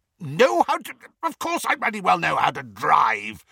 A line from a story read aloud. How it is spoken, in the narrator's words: spluttered Uncle Vernon